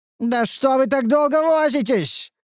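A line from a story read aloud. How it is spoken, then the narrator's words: Hysterical shouting leader. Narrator (Russian): истерично прокричал вожак противника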